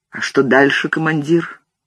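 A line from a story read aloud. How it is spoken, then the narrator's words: Quiet question. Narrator (Russian): Дик негромко спросил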